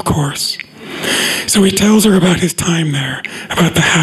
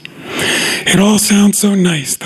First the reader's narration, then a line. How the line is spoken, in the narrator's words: the lady says with a sigh